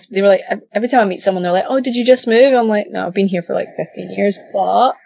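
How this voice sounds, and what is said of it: Strong Glaswegian Scottish accent. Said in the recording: “Hence the Glaswegian accent ... Everyone says it's still like really strong ... you sound like you just got off the train”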